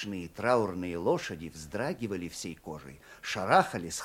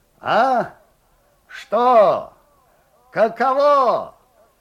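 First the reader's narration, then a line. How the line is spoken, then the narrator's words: Muffled distant shout. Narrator (Russian): глухо кричал Лукьян Степанов из темноты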